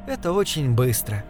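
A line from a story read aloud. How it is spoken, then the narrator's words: Sympathetic tone. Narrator (Russian): сказала госпожа Сурага сочувственным тоном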